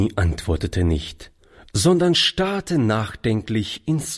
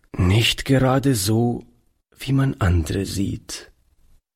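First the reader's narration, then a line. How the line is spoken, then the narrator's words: Plain. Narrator (German): antwortete Oliver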